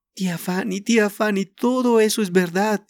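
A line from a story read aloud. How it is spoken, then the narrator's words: Moaning. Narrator (Spanish): gimió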